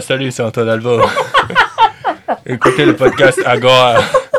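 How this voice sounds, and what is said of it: Impression of Antoine Albeau. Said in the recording (French): “Cette imitation d'Antoine Albo parfaite.”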